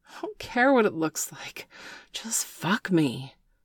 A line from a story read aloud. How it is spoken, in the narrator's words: Bailey gasped